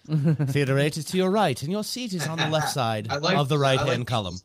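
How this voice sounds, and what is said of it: Put-on accent. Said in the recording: “Accent, that's funny.”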